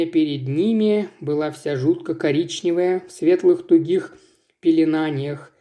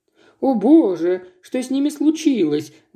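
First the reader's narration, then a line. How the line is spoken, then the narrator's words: Exclamation. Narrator (Russian): воскликнула Жанна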